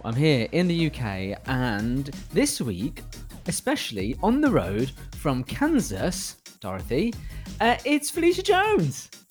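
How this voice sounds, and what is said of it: British accent. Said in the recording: “I love the way you say Kansas... sounds so British.”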